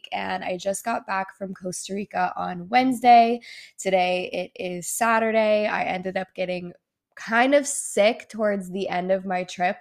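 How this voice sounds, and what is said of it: Slightly nasal, congested voice. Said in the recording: “my voice is like a little bit nasally. So I do apologize if it doesn't sound that great”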